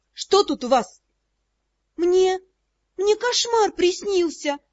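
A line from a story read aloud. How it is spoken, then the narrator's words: Unsure voice. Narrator (Russian): неуверенным голосом сообщила Бри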